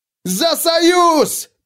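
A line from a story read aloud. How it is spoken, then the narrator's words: Strained roar in pain. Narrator (Russian): проревел он, чувствуя, как все тело болит от усилий держаться на лошади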